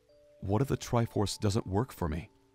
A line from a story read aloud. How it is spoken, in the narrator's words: Link asked